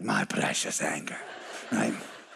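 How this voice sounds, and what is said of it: Imitates a Lord of the Rings character. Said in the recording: “like putting on that ring in Lord of the Rings ... Did y'all like that imitation? That was pretty good, wasn't it?”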